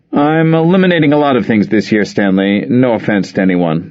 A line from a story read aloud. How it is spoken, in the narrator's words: Luther said